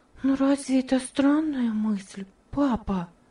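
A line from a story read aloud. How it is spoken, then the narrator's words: Whispered question. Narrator (Russian): спросила Ева шепотом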